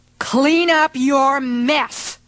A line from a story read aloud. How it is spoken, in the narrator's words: she growled